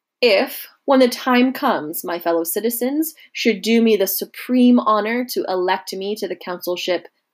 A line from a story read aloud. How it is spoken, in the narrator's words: he said